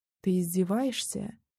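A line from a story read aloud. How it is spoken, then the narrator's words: Barely audible. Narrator (Russian): выговорила еле слышно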